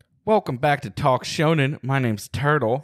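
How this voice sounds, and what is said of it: Put-on southern accent. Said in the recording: “I don't know where the southern accent came from. ... we start it southern”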